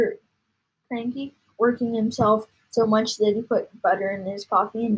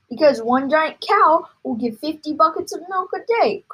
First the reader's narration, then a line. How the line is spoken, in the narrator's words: cried Mr